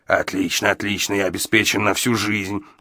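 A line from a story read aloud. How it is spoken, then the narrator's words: Muttering to himself. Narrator (Russian): бормотал себе под нос Гадсон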